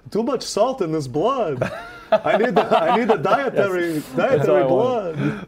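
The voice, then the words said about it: Jewish vampire character voice. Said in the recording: “talk with an accent of the vampire ... What's a Jewish vampire sound like? ... I like when you wear your vampire.”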